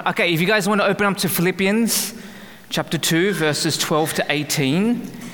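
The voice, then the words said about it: Australian accent. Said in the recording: “where my accent is from ... I'm Australian”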